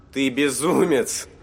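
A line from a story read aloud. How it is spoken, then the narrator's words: Indignant, almost laughing. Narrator (Russian): ответил ему Бенито Кэш, негодующий одновременно чуть ли не смеясь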